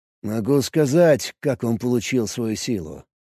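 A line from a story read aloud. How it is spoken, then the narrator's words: Quiet. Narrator (Russian): тихо произнес он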